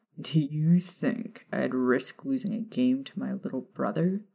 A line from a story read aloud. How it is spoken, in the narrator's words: Sirius scoffed at the notion